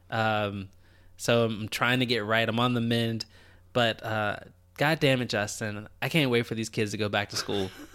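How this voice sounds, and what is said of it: Congested voice from a cold. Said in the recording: “If you can't tell in my voice, I'm getting over a little bit of a cold.”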